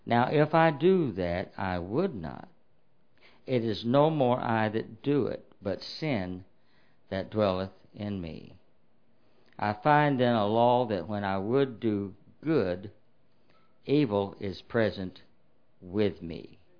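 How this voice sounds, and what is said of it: Slow, deliberate reading. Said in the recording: “I read that slowly,”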